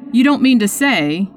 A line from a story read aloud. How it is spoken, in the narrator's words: he faltered